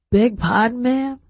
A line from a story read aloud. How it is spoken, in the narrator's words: I croaked